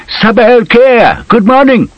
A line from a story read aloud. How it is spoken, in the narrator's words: the postman called out